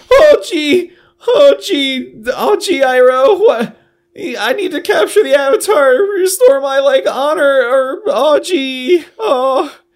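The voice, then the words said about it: Terrible Rick and Morty impression. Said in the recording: “terrible Rick and Morty impression”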